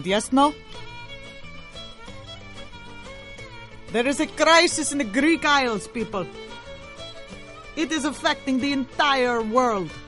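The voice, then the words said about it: Put-on Greek accent. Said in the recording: “I will be doing the entire show in this vaguely Mediterranean accent ... Do you like my Greek accent?”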